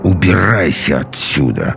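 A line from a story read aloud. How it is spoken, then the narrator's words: Through gritted teeth. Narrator (Russian): процедила сквозь зубы Алиса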